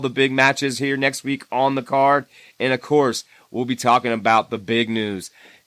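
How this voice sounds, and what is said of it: Rough, messed-up voice. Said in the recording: “my voice is so messed up this week”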